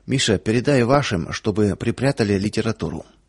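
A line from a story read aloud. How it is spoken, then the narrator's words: Low-voiced host. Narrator (Russian): хозяин вполголоса сказал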